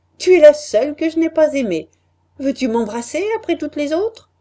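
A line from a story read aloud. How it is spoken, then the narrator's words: Laughing. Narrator (French): m'a dit en riant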